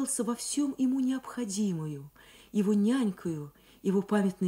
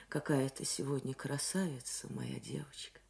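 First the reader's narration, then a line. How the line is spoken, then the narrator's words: Warm affectionate smiling. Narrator (Russian): сказал ласково улыбаясь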